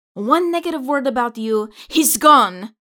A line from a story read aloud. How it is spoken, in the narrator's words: Anita exclaims dramatically